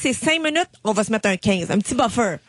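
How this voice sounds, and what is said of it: Old grandmother-like voice. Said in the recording (French): “je prends un accent, comme si genre j'avais vieilli ... tu parles comme une grand-mère”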